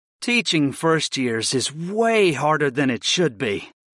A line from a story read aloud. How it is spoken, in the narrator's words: I groaned